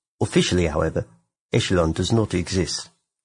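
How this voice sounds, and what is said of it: Exaggerated, poor New Zealand accent. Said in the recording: “I'm getting such a Kiwi vibe from that... I went Kiwi so hard... atrocious accent impersonation”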